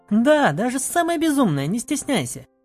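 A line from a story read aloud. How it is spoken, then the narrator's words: Laughing. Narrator (Russian): Рассмеялась я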